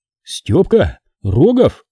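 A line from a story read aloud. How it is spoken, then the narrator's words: Exclaimed. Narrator (Russian): воскликнул сидящий рядом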